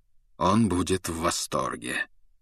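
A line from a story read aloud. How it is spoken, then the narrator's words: Cold remark. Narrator (Russian): холодно заметил Люпин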